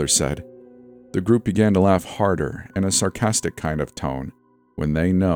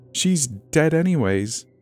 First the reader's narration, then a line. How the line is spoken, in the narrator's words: the leader said through a giggle